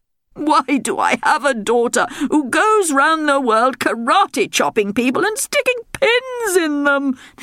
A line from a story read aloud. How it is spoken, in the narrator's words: the king moaned